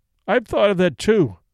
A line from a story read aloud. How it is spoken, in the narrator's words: wailed Mrs